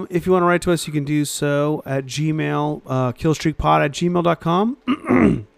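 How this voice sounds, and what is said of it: Hoarse, strained voice. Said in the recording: “I'm losing my voice ... My voice has been like that lately.”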